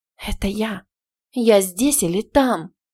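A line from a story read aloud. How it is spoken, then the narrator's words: Breathless exhale. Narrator (Russian): выдохнула я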